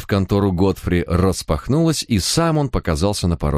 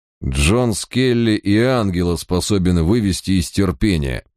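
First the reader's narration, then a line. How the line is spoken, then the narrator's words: Through gritted teeth. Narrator (Russian): процедил я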